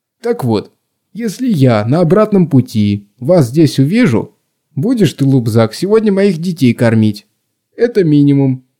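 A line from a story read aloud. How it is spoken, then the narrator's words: Chuckling. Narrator (Russian): Гза хохотнул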